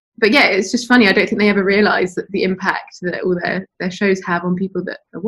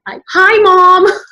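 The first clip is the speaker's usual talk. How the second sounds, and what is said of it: Squeaky, poor put-on American accent. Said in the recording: “we all put on American accents ... it was a terrible little squeaky accent that I was putting on. I hadn't quite mastered it.”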